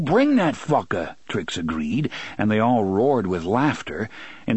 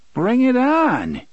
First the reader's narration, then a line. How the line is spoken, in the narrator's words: Jimmy Haspio cried happily